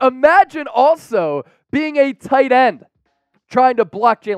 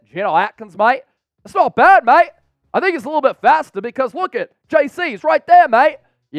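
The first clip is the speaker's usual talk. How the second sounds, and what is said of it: Poor put-on Australian accent. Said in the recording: “in an Australian accent? ... Yeah, kind of a poor Australian accent, but at least I tried.”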